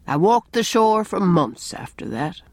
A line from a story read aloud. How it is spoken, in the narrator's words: he said sadly